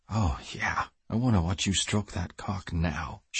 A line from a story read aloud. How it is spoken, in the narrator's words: she whispered, desire practically dripping from her voice